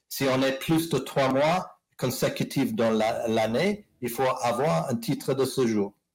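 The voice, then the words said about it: English accent speaking French. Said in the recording (French): “vous écoutez mon petit accent anglais”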